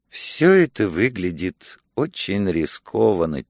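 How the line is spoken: Quiet. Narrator (Russian): тихо сказала, наконец, Зола

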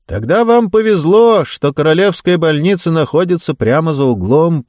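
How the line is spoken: Shouting. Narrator (Russian): прокричал он

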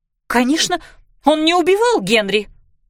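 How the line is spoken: Irritated exclamation. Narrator (Russian): раздраженно воскликнула Кларисса

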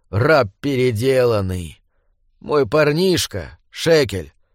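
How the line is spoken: Unexpectedly calm. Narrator (Russian): сказал он неожиданно спокойным голосом

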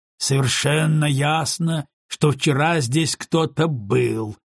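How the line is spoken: Grumbling. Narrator (Russian): пробурчал Симс

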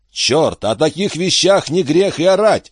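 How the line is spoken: Shout. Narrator (Russian): выкрикнул Гарденер

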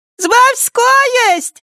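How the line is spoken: Shout turning into laughter. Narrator (Russian): прокричала она и тут же начала смеяться

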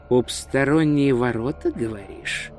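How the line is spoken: Muttering. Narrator (Russian): пробормотал он

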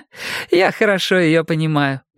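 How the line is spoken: Laughing woman. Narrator (Russian): засмеялась рыжеволосая женщина

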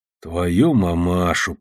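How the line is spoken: Muttered. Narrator (Russian): пробормотал я

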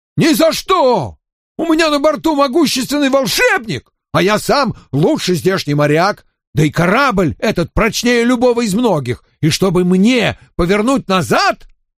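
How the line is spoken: Shouted reply. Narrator (Russian): Шкипер прокричал в ответ

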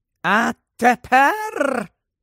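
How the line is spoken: Triumphant voice. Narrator (Ukrainian): промовила тріумфальним голосом

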